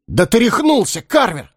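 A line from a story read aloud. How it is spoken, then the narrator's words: Several voices shouting. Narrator (Russian): выкрикнуло сразу несколько голосов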